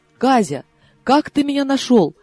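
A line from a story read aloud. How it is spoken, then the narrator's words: Astonished exclamation. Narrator (Russian): воскликнула я, не веря своим ушам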